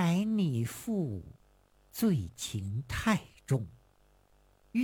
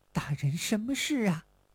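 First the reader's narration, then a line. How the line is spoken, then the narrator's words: Lewd shameless laughter. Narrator (Chinese): 下流无耻的笑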